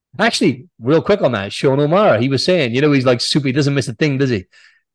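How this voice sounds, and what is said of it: Mixed Welsh, English and Australian accent. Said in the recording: “you do still sound English. You don't sound Australian ... I'm Welsh, actually ... my accent is weird now, because I've been in Oz for like 6.5 years. So I've got like this weird kind of mixed up accent”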